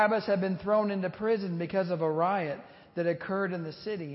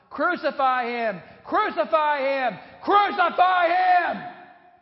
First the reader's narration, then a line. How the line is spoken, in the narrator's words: And they kept shouting out